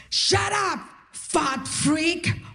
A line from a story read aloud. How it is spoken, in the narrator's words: The guy yells at me